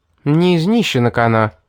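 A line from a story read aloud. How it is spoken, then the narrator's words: Girl grumbling. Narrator (Russian): пробурчала девчонка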